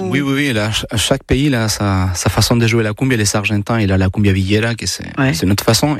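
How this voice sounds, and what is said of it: Chilean accent speaking French. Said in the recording (French): “votre accent ... il vient d'où? ... De Chili.”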